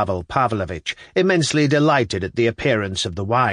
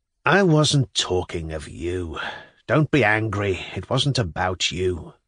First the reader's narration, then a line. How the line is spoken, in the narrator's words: muttered Pavel Pavlovich